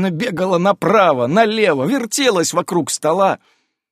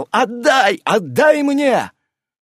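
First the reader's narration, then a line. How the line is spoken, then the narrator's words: Shouting. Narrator (Russian): Гюк кричал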